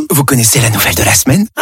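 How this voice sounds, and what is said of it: Whispering. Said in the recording (French): “pourquoi chuchotez-vous ? ... ne le dites pas trop fort”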